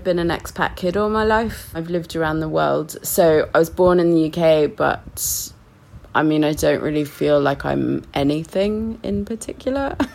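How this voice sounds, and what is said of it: British accent with some New Zealand tinge. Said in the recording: “my accent is kind of a bit weird and, you know, odd ... of course you're British ... maybe that's a New Zealand accent”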